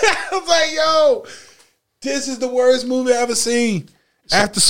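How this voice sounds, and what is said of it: Usual voice. Nothing is said of it.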